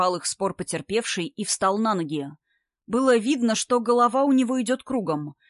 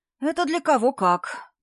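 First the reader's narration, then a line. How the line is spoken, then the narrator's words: Sigh. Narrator (Russian): вздохнул Вовка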